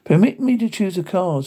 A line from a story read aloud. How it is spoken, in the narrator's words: said Herman